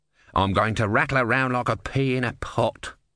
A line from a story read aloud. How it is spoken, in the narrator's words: grumbled the tortoise